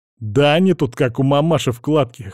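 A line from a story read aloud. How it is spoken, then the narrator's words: Chuckle. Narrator (Russian): хохотнул химик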